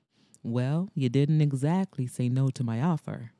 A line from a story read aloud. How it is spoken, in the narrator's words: replied smoothly